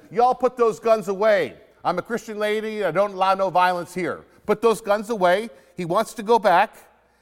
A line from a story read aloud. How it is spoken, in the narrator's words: I shouted to them